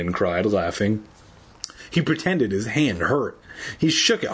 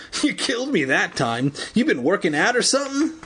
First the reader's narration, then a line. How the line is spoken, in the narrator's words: laughing